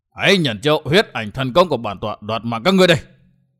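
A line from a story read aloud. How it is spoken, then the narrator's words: Loud roar. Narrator (Vietnamese): Huyết Ma Bảo Chủ gầm to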